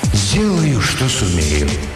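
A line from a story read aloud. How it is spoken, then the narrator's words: Deep sigh, then speaking. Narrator (Russian): глубоко вздохнул и промолвил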